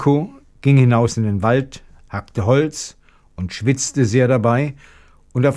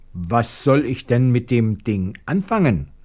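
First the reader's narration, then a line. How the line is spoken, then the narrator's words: Plain. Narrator (German): fragte Janko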